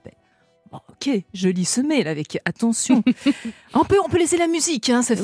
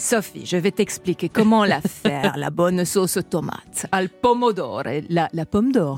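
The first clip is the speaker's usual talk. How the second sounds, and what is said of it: Put-on Italian accent. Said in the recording (French): “j'ose l'accent italien ?”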